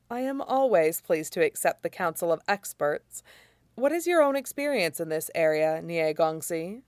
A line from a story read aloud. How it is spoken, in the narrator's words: Jing Guangyao murmurs